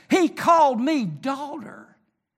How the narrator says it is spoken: she stands alone in the street and screams at the top of her lungs

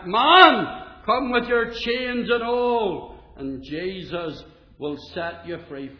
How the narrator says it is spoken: as quick as a flash, Moody shouted back

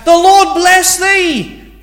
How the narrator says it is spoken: they then shouted back

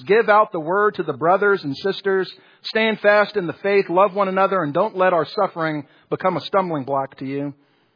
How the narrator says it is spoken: Perpetua called out to some grieving friends

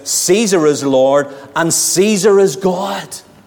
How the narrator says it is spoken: they would have cried out

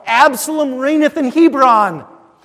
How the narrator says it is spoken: the people are to shout

